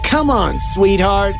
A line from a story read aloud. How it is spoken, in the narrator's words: he called, with his voice taunting